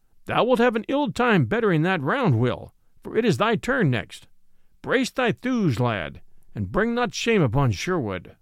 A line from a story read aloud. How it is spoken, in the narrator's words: Merry Robin laughed, and quoth he